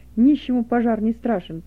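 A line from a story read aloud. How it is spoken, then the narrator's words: Loud. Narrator (Russian): Быков со словами, сказанными громко начальнику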